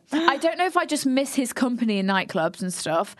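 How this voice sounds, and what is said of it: Weak put-on Irish accent. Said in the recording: “I'm going to do this all in Irish accent. ... She can't do an Irish accent.”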